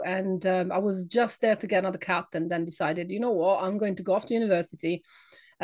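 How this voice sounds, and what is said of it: Italian accent. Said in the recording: “my accent. I am not British. I come from Italy.”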